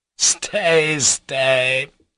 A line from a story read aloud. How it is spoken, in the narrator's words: laughed Ivan